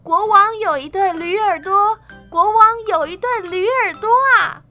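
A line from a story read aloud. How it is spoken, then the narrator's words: Shouted. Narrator (Chinese): 喊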